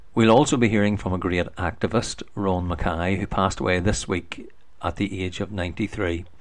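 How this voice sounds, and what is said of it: Scottish accent. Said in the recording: “Excuse my Scottish accent.”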